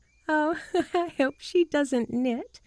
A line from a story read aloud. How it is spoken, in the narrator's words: laughed Margaret